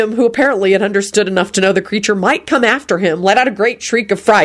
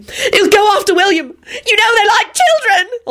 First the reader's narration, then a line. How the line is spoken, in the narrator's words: Elizabeth sobbed